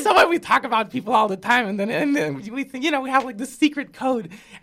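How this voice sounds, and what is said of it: Puerto Rican accent. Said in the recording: “You were saying that you noticed an accent. I'm from Puerto Rico.”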